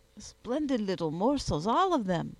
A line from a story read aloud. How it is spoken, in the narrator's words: exclaimed Monsieur Craplona